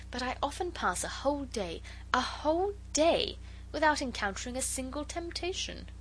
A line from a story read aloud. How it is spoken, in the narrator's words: she said earnestly